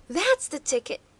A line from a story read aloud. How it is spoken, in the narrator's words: broke in Waldo eagerly